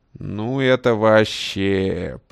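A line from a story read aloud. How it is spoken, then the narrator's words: Old man drawling. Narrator (Russian): протянул дед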